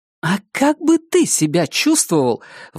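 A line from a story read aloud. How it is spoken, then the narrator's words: Exclaimed. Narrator (Russian): воскликнула Дениз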